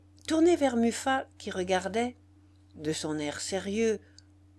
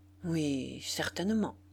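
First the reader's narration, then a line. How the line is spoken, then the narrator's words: Murmured. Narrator (French): murmura-t-il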